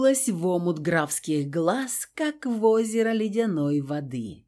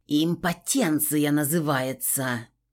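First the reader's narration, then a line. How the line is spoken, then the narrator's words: Hissed with fading fury. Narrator (Russian): Прошипела, хватаясь за обрывки ярости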